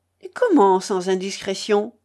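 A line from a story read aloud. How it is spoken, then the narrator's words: Exclaimed. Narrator (French): s'écria le faux Don Félix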